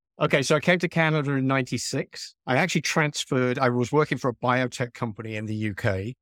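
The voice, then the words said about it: Noticeable foreign accent. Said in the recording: “I love the accent... where does this accent come from?”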